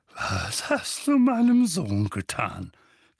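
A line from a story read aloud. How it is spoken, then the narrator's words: Threatening growl. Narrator (German): knurrte er drohend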